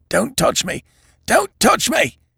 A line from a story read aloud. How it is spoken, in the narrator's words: said Evans in a stifled voice